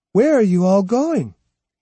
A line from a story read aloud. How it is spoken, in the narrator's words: she called out to him